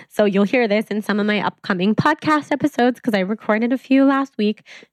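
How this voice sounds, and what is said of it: Voice not clear or smooth. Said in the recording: “Sorry for my voice. ... I've been very sick ... my clear, silky smooth, hopefully, voice”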